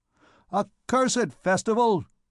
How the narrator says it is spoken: he exclaimed

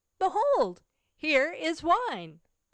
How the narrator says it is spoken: he exclaimed

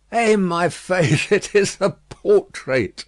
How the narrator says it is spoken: said Madame, laughing

